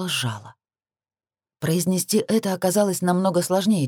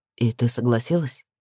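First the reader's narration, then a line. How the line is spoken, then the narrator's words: Calm clarifying. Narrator (Russian): Тем же спокойным тоном уточнил он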